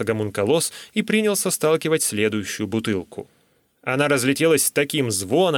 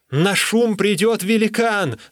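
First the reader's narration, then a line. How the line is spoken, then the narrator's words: Shouting. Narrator (Russian): закричал я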